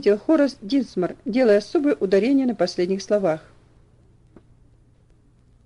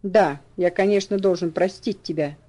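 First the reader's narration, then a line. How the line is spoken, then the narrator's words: Cold reply, old man. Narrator (Russian): холодно ответил дедушка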